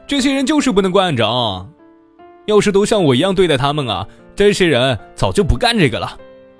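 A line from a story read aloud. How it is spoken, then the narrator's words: Smug, deliberately loud. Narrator (Chinese): 你得意的笑，觉得自己像个英雄一样，故意大声的说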